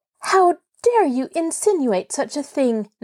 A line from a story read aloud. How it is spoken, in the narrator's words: Nancy cried angrily